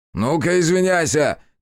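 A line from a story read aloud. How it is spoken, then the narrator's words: Shout into ear. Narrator (Russian): крикнул он Кику в самое ухо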